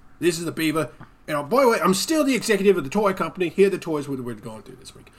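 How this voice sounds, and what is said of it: Man's voice with British accent. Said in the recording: “The beaver's voice sounds a little bit like this. You might think it would sound like, "Hello, I'm a beaver!" But no, it's a man doing it, so he's got a man's British voice.”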